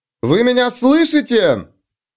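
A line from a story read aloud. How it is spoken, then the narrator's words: Shouting. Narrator (Russian): она не делала ничего другого, только кричала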